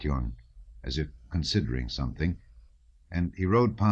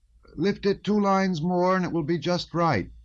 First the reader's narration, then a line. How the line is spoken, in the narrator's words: cried he in a feeble voice, to which he tried to impart a dashing note, ill-suited to his weak figure